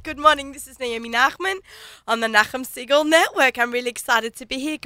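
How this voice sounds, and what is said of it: Sick, congested-sounding voice. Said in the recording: “I have a cold, you can tell, right?”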